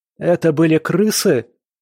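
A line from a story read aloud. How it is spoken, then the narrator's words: Shrill question. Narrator (Russian): визгливо спросил Цанг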